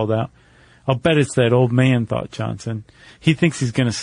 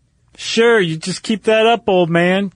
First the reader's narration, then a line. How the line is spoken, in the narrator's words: Johnson called out again